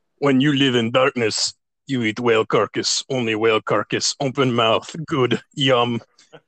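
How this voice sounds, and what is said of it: Impression of Sacha Baron Cohen's character. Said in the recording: “he's like a bottom fish guy living in darkness ... that guy was played by Sacha Baron Cohen ... a good impression. That was a good one.”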